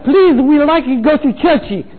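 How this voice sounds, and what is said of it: English with a put-on foreign accent. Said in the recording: “spoke English with a foreign accent”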